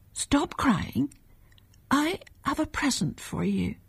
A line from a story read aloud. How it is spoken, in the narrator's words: whispered her mother